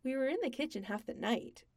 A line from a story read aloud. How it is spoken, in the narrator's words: Sam said cheerfully